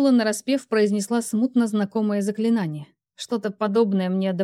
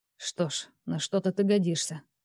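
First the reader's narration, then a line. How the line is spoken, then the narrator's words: Mutter. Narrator (Russian): буркнул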